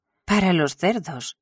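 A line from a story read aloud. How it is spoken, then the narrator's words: Horrified exclamation. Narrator (Spanish): exclamó Will horrorizado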